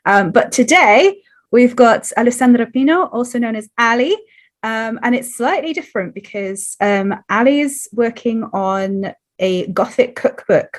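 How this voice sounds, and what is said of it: Scratchy, slightly hoarse voice. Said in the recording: “my voice is still a little bit scratchy, so apologies if I cough”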